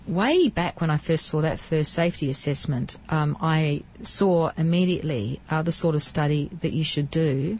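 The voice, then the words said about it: Australian accent. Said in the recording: “As you can hear from my accent, I come from Australia.”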